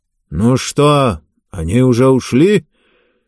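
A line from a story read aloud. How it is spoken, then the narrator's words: Distant grumbling old man. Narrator (Russian): ворчание дедушки откуда-то из-за стеллажей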